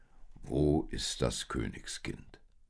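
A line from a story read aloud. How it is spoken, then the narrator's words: Deep-voiced question. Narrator (German): fragte dieser mit tiefer Stimme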